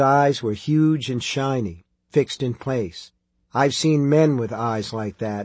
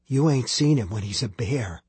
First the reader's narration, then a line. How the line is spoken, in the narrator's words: Billy whispered